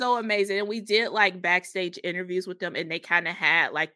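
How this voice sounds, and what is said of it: Usual voice. Nothing is said of it.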